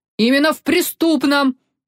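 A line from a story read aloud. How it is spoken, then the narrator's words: Barked, red-faced with anger. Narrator (Russian): гаркнул внезапно побагровевший Вольпе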